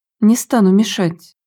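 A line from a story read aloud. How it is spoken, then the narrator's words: Quiet. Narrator (Russian): тихо говорил Стеф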